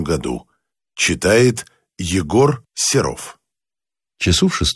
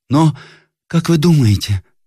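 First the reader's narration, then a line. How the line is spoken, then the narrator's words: Timid young woman's question. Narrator (Russian): спросила робким голосом молодая девушка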